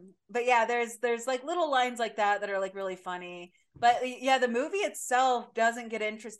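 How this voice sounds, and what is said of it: Usual voice. Nothing is said of it.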